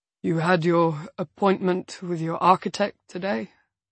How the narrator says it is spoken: Yarrick mumbles

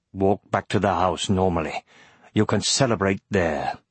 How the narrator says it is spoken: growled

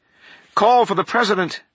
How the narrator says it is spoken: panted

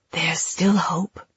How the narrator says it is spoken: she whispered

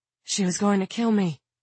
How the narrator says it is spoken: Claudia gasped

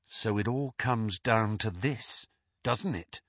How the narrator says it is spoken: whispered Harry

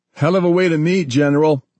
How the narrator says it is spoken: John shouted over the whine of the Black Hawk's turbines

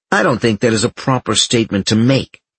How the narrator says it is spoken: he said sharply

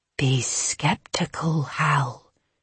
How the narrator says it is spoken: her mother's voice whispered in her ear

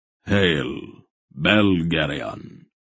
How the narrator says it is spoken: Aldor said gravely

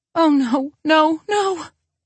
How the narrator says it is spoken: Aunt Nellie cries

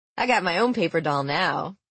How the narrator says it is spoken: he said, laughing

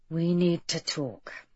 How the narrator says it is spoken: Bess said in a low voice

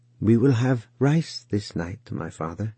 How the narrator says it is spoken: he said

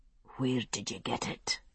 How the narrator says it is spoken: he asked again, his voice no more than a whisper

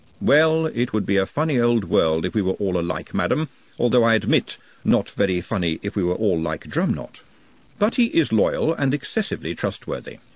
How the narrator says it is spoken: said Vetinari

